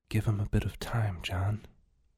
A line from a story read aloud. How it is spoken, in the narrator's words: said, barely above a whisper